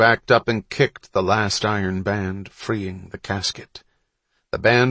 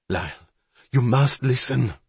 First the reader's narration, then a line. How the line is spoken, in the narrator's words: Bonterre pleaded